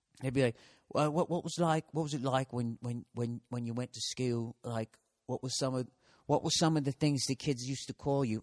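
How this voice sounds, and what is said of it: Bad put-on Australian accent. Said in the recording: “I know this is a brutal fucking Aussie accent.”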